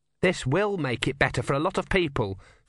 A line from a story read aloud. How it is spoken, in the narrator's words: said Erne calmly